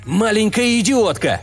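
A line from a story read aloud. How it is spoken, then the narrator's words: Shouting. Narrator (Russian): крикнул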